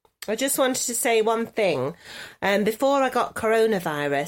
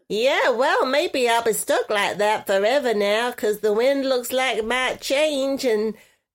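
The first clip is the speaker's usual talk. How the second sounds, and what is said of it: Exaggerated nasal put-on voice. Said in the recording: “with your nasality. ... I think that's your best accent. You're real good at that.”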